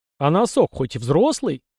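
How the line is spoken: Loud laughter. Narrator (Russian): захохотал кто-то

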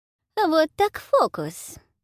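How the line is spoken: Purring. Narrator (Russian): промурлыкала шляпка

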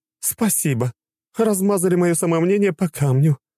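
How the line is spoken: Sighing. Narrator (Russian): вздохнула великая богиня

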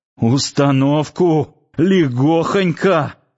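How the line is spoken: Sudden laugh, then coughing. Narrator (Russian): захохотал вдруг Ярчук и сразу снова закашлялся

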